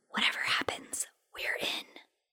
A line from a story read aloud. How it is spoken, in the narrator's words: they whispered